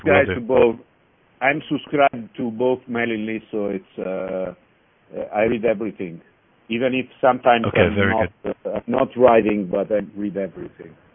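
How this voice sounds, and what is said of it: Italian accent in English. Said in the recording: “my Italian accent behind the English, it's easy to catch”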